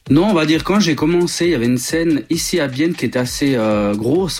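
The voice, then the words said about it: Swiss French accent. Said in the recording (French): “Comme on peut l'entendre à ton accent, tu es originaire de la Suisse.”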